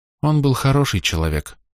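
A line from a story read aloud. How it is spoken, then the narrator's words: Quiet voice. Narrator (Russian): негромко сказала Рис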